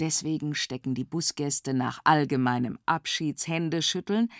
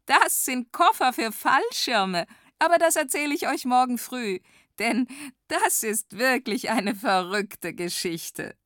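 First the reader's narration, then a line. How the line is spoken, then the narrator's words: Laughing. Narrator (German): lacht Wanda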